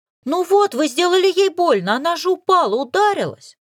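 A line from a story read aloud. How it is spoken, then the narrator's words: Accusing shout. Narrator (Russian): Напустилась на меня хозяйка дома, причем кричала так, словно я была виновата в несчастном случае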